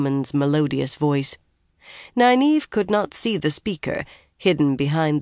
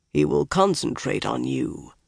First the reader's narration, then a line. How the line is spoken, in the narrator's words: the big man said in a deep voice